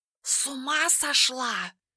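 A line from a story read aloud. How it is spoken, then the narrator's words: Barely audible hiss. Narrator (Russian): едва слышно прошипел кот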